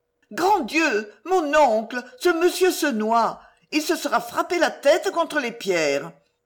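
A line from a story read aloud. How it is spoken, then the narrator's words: Exclaiming. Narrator (French): s'écria Lucienne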